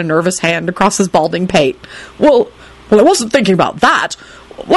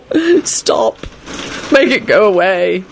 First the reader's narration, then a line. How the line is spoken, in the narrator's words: he mumbled